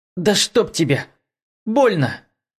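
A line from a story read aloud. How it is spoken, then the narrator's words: Pained cry. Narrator (Russian): вскрикнул Ювэй Юань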